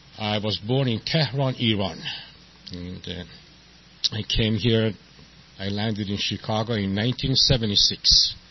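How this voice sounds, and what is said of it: Non-local foreign accent. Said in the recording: “you might be able to say from my accent that I'm not from San Diego”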